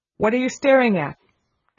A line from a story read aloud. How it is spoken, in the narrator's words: demanded Miss Minchin sharply